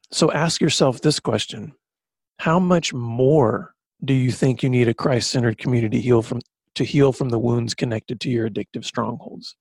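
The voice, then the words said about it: Choked-up, emotional voice. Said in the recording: “this recovery talk's getting me all choked up”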